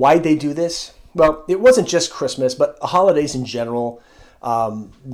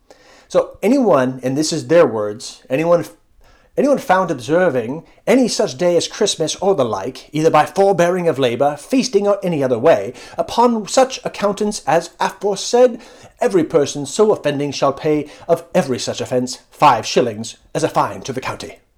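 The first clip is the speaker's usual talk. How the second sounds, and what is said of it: Put-on accent while reading. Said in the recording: “like my accent there”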